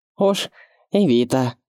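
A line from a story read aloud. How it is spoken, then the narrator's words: Prisoner summing up, giggling foolishly. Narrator (Russian): подытожил заключенный и глупо хихикнул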